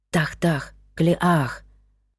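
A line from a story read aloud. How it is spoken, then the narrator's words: Even quieter whisper. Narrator (Russian): шепнул он еще тише прежнего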